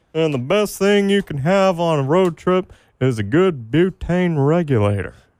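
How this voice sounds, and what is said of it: Put-on Texas accent, cartoon character voice. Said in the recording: “nice Texas accent ... that particular line was from Tom Anderson on Beavis and Butthead to America”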